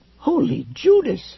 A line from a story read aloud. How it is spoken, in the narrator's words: he cried